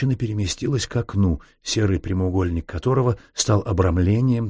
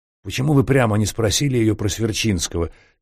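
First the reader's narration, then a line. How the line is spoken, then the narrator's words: Angry question. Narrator (Russian): сердито спросил подполковник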